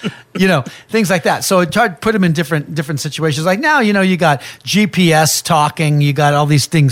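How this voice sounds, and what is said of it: Usual voice. Nothing is said of it.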